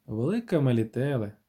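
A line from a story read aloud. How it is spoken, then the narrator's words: Sighing. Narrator (Ukrainian): зітхнула Ненекі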